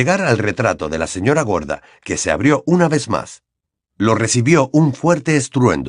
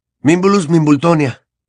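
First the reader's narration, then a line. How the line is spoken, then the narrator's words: Panting. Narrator (Spanish): dijo jadeando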